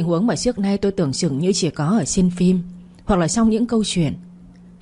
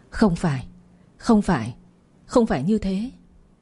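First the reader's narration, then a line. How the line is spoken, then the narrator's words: Dazed mumble. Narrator (Vietnamese): Tôi lắc đầu, miệng lẩm bẩm như một kẻ mất hồn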